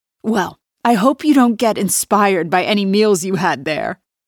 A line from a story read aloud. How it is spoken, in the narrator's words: she laughs